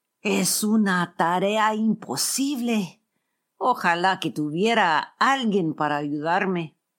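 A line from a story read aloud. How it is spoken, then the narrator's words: Bitter exclamation. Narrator (Spanish): Alejandro … exclamó amargamente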